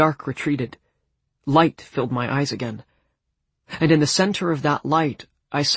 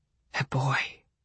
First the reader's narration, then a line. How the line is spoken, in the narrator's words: the tree whispered